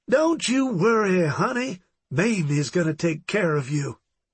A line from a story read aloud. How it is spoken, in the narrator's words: Mamie cooed playfully